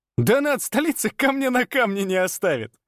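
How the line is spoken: Friend guffawing. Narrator (Russian): захохотал друг

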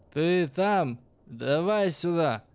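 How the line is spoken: Blacksmith's shout. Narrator (Russian): крикнул кузнец

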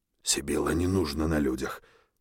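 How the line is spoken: Insistent fatherly whisper. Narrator (Russian): напористо зашептал отец

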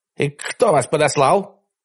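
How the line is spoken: Barked. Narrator (Russian): гаркнул он

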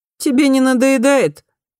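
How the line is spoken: Strained laugh. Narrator (Russian): Эйди засмеялся, но явно с натугой

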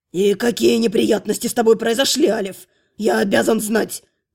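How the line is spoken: Growling old man. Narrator (Russian): зарычал дед

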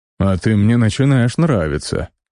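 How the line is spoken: Snorting chuckle. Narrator (Russian): хмыкнул он

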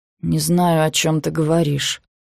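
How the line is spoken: Quiet reply. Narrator (Russian): тихо отвечает Эш

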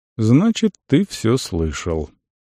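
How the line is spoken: Calm. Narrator (Russian): Тибор сказал спокойно

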